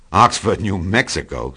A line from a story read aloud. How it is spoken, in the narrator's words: snorted Tom contemptuously